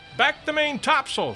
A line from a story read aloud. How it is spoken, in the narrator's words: shouted the captain